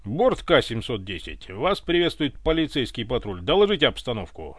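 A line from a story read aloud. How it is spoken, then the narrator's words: Flat impersonal radio command. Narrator (Russian): Дежурно безликим голосом приказал Иван на волне общей связи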